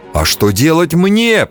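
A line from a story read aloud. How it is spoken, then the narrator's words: Stunned shout. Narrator (Russian): прокричал ошеломленный Аксель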